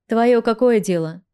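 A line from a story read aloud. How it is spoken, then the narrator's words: Rude reply. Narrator (Russian): Грубо ответил мне Атал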